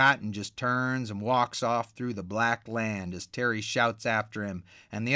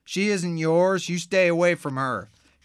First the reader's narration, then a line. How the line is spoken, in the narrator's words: Terry yells